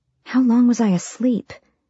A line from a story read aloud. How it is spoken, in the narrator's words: whispered